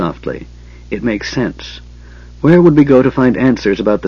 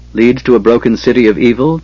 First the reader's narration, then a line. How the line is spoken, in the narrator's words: Tanis asked grimly